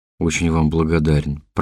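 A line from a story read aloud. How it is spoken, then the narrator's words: Embarrassed mumble. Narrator (Russian): промямлил, чувствуя себя полным идиотом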